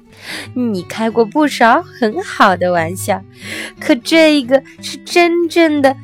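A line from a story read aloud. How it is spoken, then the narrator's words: Breathless laughter, old elephant. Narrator (Chinese): 一只老象笑得上气不接下气地说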